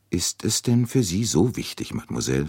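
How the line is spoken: Plain question. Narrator (German): fragte er

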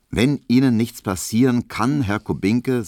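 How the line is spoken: Plain. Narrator (German): sagte Herr Ziedorn

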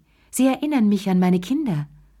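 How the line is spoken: Sighing. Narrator (German): seufzte sie

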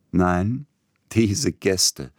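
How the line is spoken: Laughing. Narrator (German): lachend

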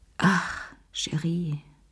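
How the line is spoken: Sighing. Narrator (German): seufzte sie

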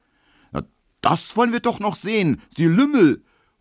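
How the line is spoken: Angry shout. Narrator (German): ruft Emil Kubinke, rot wie ein Puter

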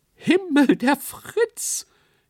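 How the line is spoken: Shriek from the stage. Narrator (German): kreischte jemand auf der Bühne

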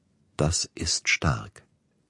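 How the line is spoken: Said quietly. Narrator (German): sagte er leise

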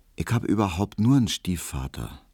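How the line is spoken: Quiet. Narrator (German): sagte Hedwig leise

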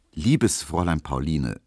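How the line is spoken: Very calm reply. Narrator (German): versetzte Emil Kubinke sehr ruhig

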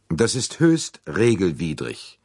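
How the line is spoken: Cold reply. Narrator (German): entgegnete Arbuthnot kalt

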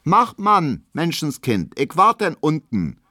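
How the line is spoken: Calling out. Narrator (German): ruft Hedwig noch

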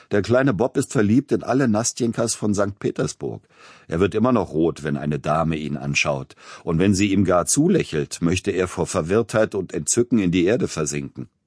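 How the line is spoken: Laughing young friend. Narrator (German): Einer seiner jungen Freunde sagte lachend

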